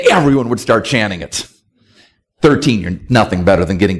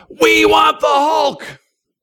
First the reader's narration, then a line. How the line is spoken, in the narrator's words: yell